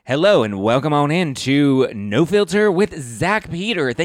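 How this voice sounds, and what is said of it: Radio announcer voice. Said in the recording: “you love my radio voice?”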